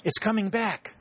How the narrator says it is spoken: exclaimed Mrs

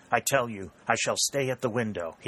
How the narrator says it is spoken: exclaimed with energy

